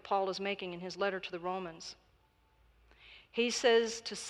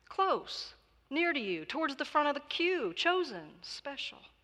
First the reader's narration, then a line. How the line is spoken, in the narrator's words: pleaded the pilgrim